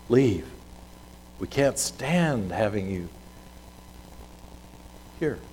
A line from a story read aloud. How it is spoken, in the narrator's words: plead